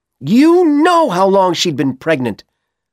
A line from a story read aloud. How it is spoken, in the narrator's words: Ellen shouted